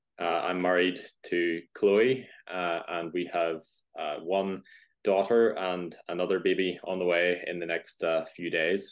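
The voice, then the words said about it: Northern Irish accent. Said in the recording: “As you can probably hear, if you know accents, I'm from Northern Ireland”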